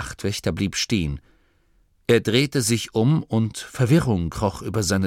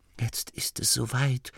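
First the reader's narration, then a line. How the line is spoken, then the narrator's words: Hunter whispering again. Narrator (German): wisperte erneut die Stimme des Jägers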